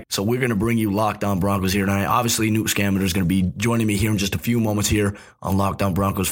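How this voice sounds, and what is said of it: Raspy, hoarse voice. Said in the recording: “my voice sounds a little raspy. I'm overcoming the sore throat”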